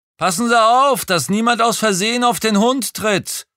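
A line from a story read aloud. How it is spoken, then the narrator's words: Calling after someone. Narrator (German): rief ich ihm hinterher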